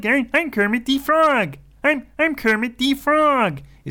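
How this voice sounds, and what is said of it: Nasal, less throaty Kermit voice. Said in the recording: “It's less like throaty and more like... A bit more nasal... That was quite good... A good Matt Vogel Kermit.”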